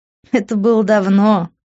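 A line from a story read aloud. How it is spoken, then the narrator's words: Laughing. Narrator (Russian): рассмеялась я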